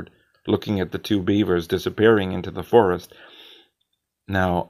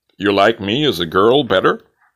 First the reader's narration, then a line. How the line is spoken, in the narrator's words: I laughed